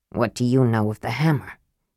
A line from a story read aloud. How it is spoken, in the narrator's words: he asked in a low voice